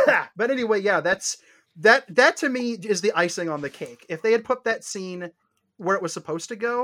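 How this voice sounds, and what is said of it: Usual voice. Nothing is said of it.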